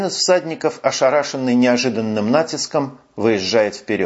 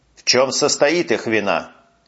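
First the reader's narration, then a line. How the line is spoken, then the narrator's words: Commanding interrogation. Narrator (Russian): Все таким же властным тоном продолжает допрашивать Сен-Реми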